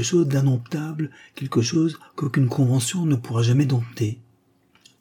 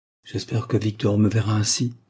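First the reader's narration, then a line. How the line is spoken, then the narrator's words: Murmuring almost to herself. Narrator (French): murmura-t-elle presque pour elle-même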